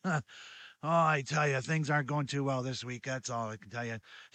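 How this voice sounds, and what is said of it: Sick, under-the-weather voice. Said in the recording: “I'm a little under the weather right now. You might be able to hear it in my voice.”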